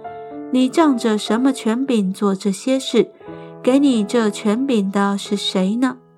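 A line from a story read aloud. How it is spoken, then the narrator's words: Plain. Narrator (Chinese): 耶稣对他们说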